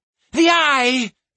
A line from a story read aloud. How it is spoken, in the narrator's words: She cried, her voice trembling with fear